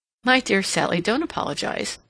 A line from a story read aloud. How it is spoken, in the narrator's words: said Mary, laughing